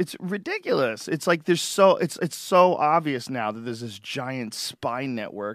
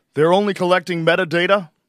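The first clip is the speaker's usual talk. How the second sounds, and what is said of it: Imitates another person's voice. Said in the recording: “Obama impersonation”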